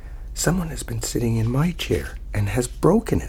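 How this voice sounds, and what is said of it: Small squeaky baby voice. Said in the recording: “in a small, squeaky baby voice”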